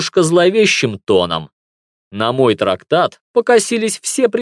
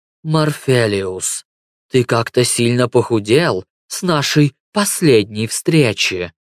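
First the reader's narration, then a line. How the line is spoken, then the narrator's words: Feigned affection. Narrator (Russian): Наигранно ласковым тоном сказала сущность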